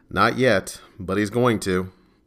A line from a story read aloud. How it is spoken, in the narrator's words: said in a weary voice